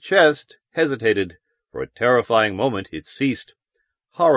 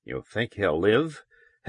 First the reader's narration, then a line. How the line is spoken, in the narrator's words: Helmar whispered